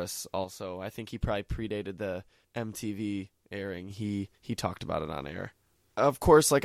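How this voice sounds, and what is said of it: Usual voice. Nothing is said of it.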